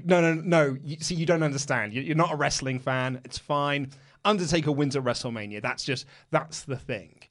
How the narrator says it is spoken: me and John laughing at her and saying

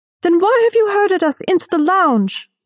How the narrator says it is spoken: a woman shouted

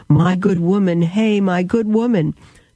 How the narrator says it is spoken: Martin ... cried

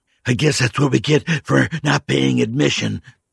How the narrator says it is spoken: the old man gasped jokingly

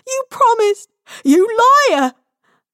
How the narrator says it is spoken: her screams

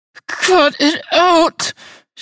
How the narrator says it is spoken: pleaded

